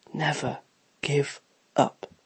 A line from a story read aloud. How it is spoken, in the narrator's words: He whispered to himself